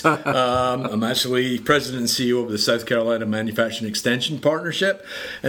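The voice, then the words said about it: Scottish accent. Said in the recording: “I do have an accent. ... the reason I talk like this is I was born and raised in Edinburgh, Scotland.”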